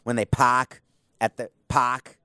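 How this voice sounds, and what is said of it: Put-on Boston accent. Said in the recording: “Think of their Boston accents, right? ... That's the only word I can say with Boston accent is park.”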